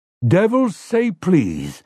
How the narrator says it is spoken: Overholzer exclaimed

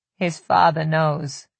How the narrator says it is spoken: Ramsay said, speaking softly

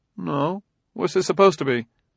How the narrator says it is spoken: He said evenly

